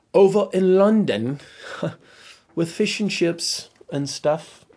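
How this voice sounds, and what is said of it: Attempted British accent. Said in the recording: “That's the best I can do on the British accent”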